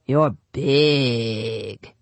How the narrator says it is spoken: they drawled

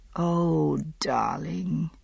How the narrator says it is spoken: I murmured

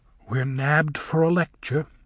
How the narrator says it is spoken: whispered Glinda to the Thropp sisters

